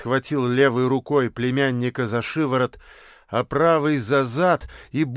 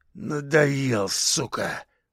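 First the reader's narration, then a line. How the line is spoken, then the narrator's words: Hoarse wheeze. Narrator (Russian): прохрипел Кабан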